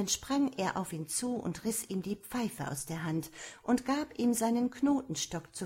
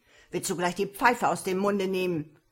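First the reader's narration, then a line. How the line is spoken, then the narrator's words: Angry shout. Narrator (German): rief zornig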